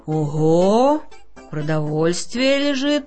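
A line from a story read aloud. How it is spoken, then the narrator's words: Amused snort. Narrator (Russian): хмыкнул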